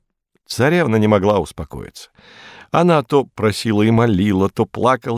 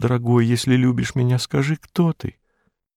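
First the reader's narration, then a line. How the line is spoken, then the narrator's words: Princess's barely audible whisper. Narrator (Russian): Царевна чуть слышно шепнула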